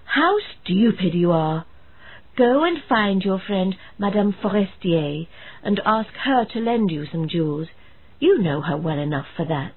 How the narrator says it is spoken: her husband exclaimed

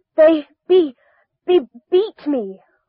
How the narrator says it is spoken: I gasped

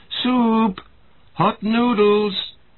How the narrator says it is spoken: Mother cried

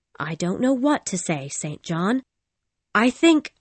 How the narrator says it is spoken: I said

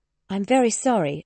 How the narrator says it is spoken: Elizabeth exclaimed

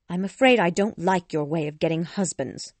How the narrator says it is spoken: Elizabeth replied coldly

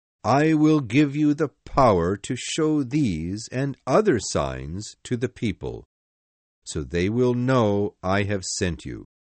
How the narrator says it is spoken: God said

